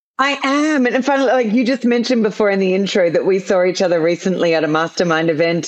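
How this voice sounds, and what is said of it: Australian accent. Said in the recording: “You don't have an American accent. You're obviously from Australia”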